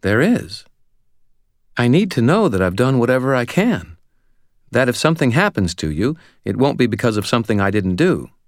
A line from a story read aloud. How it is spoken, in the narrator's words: she said earnestly